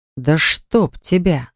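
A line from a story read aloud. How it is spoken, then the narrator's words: Growled. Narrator (Russian): зарычал Левон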